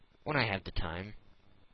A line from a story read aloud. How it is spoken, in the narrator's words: replied Phileas Fogg quietly